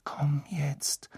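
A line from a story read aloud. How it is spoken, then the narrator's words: Mutter. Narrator (German): murmelte er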